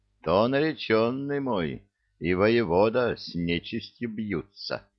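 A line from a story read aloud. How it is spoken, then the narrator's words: Solemn. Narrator (Russian): торжественно сказала Василиса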